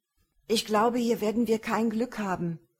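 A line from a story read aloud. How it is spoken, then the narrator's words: Loud over street noise. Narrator (German): sagte Numarak laut zu Runor und versuchte damit den Straßenlärm, um sie herum zu übertönen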